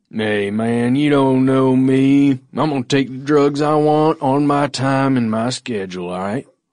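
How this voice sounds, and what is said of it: Convincing put-on Southern accent. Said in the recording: “I was going soft on a southern accent there ... I think you nailed it.”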